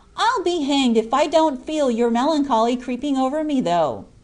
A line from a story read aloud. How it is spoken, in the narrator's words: exclaimed Jack